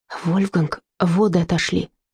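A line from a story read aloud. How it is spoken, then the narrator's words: Whispered. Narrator (Russian): Фрида прошептала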